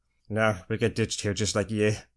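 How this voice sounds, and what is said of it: Character voice, sudden Scottish-sounding accent. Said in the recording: “impression of a character. One of the smooth posers ... He's like Scottish all of a sudden.”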